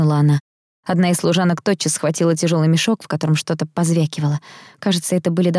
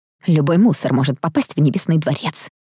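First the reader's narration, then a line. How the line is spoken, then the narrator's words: Hiss. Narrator (Russian): прошипела она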